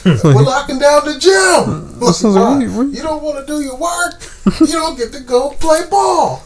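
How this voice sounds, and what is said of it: Yelling imitation of another person's voice. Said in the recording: “something about Samuel Jackson and him yelling ... Why are you yelling?”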